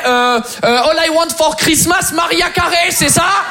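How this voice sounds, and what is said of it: Exaggerated fake French accent. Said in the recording (French): “je vais devoir falsifier un accent français”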